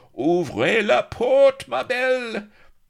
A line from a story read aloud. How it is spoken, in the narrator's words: ended in a shriek of dismay